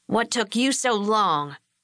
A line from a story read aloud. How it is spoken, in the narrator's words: Bobby asked him in a surly tone